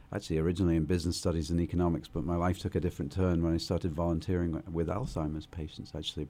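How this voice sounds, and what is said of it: British accent. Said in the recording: “my accent doesn't exactly sound very Boston ... I'm from the UK”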